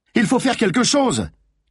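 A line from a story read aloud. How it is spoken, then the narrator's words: Shouted. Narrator (French): cria une voix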